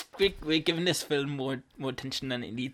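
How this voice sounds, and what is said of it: Attempted New Zealand accent, sounds Irish. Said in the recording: “your New Zealand accent ... It's a bit Irish.”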